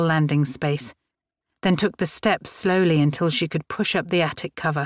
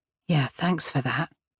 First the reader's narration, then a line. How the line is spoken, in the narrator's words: Grace muttered